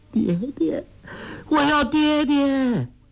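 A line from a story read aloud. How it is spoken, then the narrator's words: Crying out. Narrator (Chinese): 黄蓉却只是哭叫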